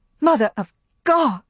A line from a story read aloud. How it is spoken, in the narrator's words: cried Scarlet